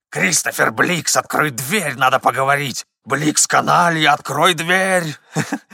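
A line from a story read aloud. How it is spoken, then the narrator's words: Hoarse shouting. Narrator (Russian): хриплые крики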